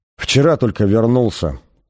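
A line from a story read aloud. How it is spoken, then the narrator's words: Muttering. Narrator (Russian): пробормотал он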